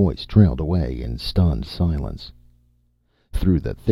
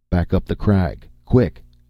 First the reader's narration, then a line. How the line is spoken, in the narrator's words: snapped Conan